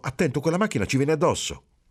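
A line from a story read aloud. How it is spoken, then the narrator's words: Feigned frightened exclamation. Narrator (Italian): Marcello finse di spaventarsi e esclamò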